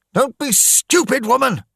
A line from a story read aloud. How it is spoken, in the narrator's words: he shouted at her